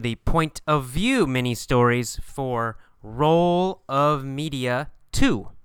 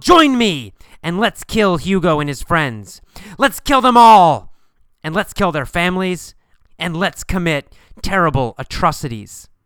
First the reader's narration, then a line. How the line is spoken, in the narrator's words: He yelled